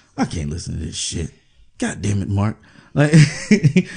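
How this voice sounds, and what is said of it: Usual voice. Nothing is said of it.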